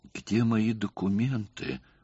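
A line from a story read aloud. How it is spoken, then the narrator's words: Stunned mutter. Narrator (Russian): пробормотала она, не в силах двинуться с места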